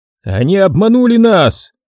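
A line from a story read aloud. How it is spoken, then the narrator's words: Shout. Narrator (Russian): крикнул Дэн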